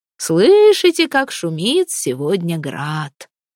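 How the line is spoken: Cheerful. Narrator (Russian): весело говорил он

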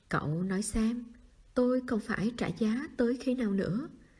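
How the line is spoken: Soft sigh. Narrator (Vietnamese): Tạ Nhất khẽ khẽ thở dài

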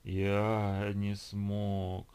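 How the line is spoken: Drawn-out gurgling groan. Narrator (Russian): протянул он страшным клокочущим голосом, как будто бы слова были лишь эхом его стона

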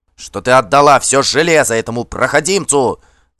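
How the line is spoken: Uncontrolled yell. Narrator (Russian): завопил Кар, больше не в силах сдерживаться

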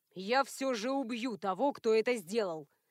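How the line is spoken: Menacing. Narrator (Russian): грозно сказал Натаниэль

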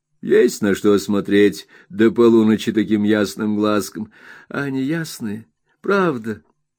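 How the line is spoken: Laughing. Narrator (Russian): смеясь подхватила Дора

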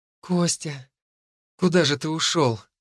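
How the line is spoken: Tender whisper. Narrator (Russian): прошептали ее губы ласково

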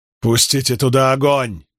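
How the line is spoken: Shout. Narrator (Russian): выкрикнул

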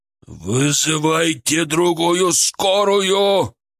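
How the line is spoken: Futile yelling into phone. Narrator (Russian): Орал он в трубку, уже понимая бессмысленность

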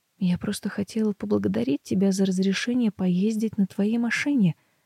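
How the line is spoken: Quiet. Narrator (Russian): говорю тихо

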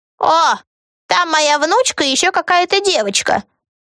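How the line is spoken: Old woman yelling. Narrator (Russian): завопила красивая старушка

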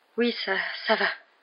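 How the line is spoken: Stammer. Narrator (French): balbutia-t-elle

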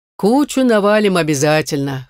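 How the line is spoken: Snort. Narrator (Russian): хмыкнул Гриф

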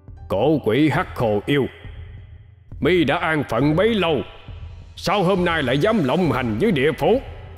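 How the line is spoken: Loud voice. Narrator (Vietnamese): Hắc Vô Thường lớn tiếng

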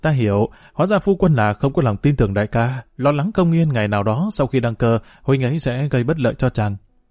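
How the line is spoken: Sighing. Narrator (Vietnamese): Triệu Nhan thở dài nói

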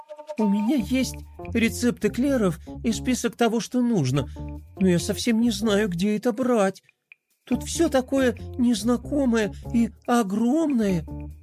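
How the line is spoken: Timid mumbling. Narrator (Russian): робко пробормотала принцесса

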